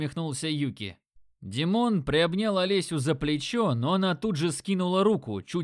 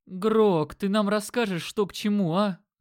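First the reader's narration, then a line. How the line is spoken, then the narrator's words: Groaning. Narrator (Russian): застонал Димка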